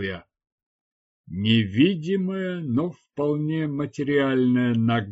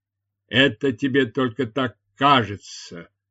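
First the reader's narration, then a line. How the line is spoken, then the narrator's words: Grumbling man. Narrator (Russian): проворчал мужчина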